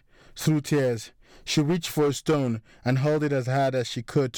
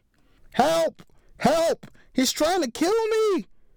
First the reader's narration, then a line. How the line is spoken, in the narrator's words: Saskia began to scream as she watched in horror